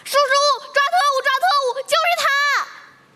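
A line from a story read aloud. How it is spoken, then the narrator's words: Sudden loud yell. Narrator (Chinese): 大声暴喊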